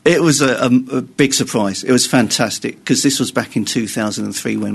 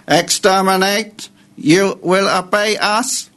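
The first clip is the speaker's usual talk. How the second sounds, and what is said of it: Dalek robotic voice impression. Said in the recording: “give us your Dalek impression”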